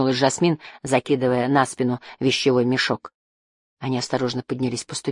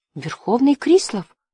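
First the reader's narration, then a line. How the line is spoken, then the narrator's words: Faltering babble. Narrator (Russian): пролепетала Тира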